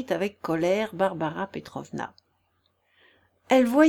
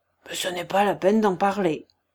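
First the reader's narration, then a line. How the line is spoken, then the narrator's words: Grumbling. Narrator (French): grommela-t-il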